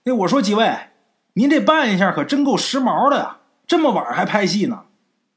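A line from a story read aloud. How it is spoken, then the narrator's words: Loud, uneasy. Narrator (Chinese): 王超这心里啊有点发毛，他故意打破这静的可怕的气氛，大声对车厢后边说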